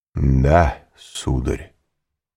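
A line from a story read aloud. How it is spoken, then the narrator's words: Solemn. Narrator (Russian): сказал торжественно Давриньи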